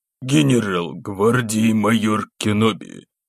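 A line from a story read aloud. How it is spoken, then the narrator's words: Hoarse voice. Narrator (Russian): хриплым голосом начал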